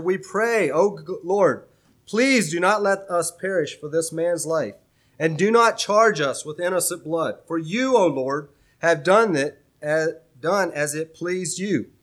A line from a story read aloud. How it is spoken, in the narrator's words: they cried out to the Lord and said